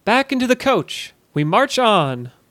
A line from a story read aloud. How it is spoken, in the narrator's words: cried